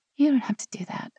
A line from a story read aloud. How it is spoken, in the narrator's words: she said quietly